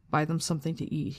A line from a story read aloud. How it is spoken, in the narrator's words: he said quickly